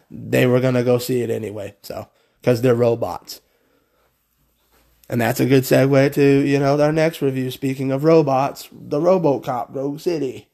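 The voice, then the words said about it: Sick, strained voice. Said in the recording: “sorry about my voice. ... I really think I am getting sick.”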